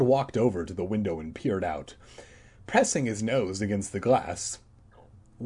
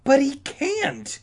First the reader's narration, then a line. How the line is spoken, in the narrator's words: Todd sputtered in a high, shrill voice